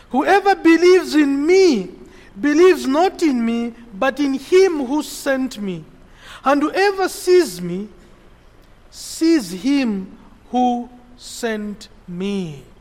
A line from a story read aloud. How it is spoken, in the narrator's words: Jesus cried out and said